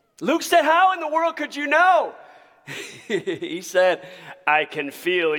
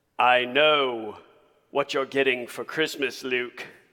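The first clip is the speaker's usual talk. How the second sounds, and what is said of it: Bad Darth Vader impression. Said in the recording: “That was the worst impression of Darth Vader you'll ever hear in your entire life.”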